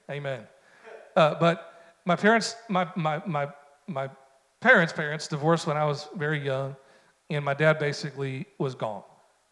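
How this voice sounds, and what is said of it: Southern-sounding American accent. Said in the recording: “my accent ... I don't know where this accent comes from, especially when I'm preaching. People are like, are you from Kentucky?”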